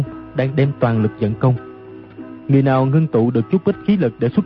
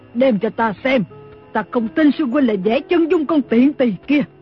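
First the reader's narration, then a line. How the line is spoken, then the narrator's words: Shriek. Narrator (Vietnamese): Lý Thu Thủy thét lên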